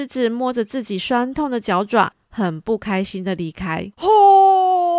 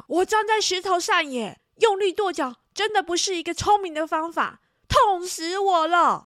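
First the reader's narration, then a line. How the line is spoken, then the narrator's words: Angry yelling. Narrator (Chinese): 他生气的大叫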